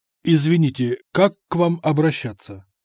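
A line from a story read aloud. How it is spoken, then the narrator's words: Plain. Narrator (Russian): спросил я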